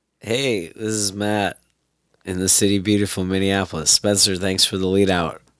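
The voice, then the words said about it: Hoarse, sick, partly lost voice. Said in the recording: “I am sick. Can you tell? ... You sound terrible. ... Kind of lost my voice a bit here.”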